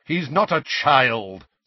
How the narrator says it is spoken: said Sirius impatiently

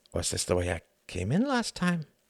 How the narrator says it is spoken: He murmured

